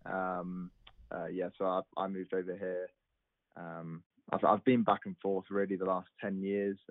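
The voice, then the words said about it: English accent. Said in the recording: “you don't sound like you have a native accent for southern Mississippi. So unless there's an English colony”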